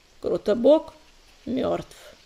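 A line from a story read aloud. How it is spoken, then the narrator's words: Dull, muffled voice. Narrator (Russian): Он глухо произнес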